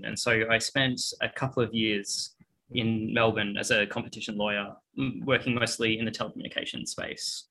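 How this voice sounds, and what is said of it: Australian English accent. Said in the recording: “As you can probably hear from my voice, I'm Australian.”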